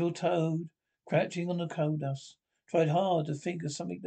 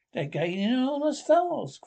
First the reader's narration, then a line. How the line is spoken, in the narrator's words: cried the engine driver